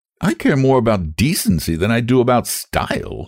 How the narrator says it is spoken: she snapped

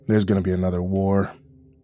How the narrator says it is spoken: Jack grumbled darkly

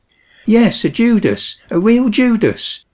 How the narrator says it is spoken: exclaimed the wife

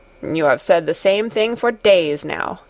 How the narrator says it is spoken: grumbled Peter

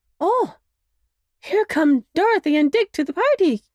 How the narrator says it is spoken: cried Marilyn

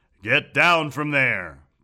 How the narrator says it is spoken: boomed Phineas

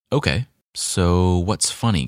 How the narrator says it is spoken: coyote asked

